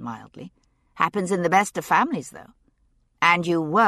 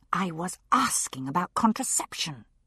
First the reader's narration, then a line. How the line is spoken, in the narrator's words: she said through her teeth